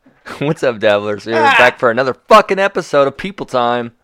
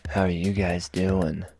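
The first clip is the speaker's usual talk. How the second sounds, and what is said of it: Soft seductive bedroom voice. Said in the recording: “This is my bedroom voice.”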